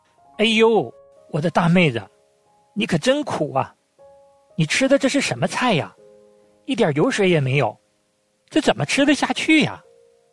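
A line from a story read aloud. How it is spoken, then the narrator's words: Middle-aged woman, surprised shriek. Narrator (Chinese): 一位中年的大嫂，发出了惊讶的尖叫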